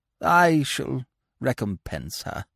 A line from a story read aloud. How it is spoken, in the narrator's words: said Aunt Agatha feebly